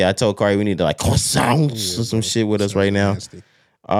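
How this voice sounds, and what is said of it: Usual voice. Nothing is said of it.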